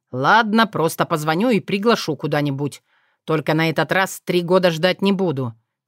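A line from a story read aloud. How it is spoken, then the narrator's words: Drowsy amused snort. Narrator (Russian): хмыкнул он, благополучно засыпая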